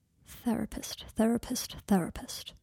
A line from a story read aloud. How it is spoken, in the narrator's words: murmured